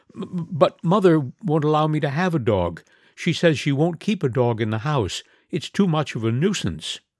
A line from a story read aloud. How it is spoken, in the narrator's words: stammered in distress and as if frightened